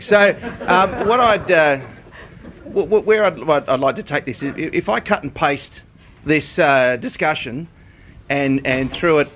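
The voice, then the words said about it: Australian accent. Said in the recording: “I'm from the Australian Meat Industry Council, so I apologise for the accent”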